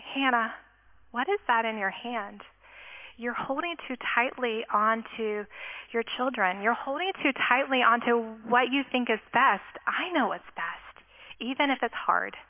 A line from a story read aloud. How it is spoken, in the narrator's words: And I felt him just gently say